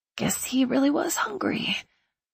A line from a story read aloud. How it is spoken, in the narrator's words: I whispered to Nick